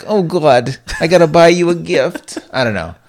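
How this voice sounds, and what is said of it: Imitated Jewish grandmother voice. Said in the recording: “My impersonation game has gone downhill... I used to be able to do a great Jewish person. Like my bubby”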